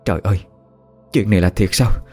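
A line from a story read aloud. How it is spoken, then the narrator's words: Shocked stammering woman. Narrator (Vietnamese): Bà Ngọc miệng lắp bắp nói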